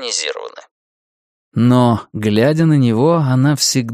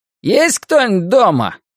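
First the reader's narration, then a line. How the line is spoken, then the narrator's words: Shouted. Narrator (Russian): крикнул он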